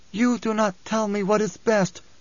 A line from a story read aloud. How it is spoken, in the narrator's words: she rasped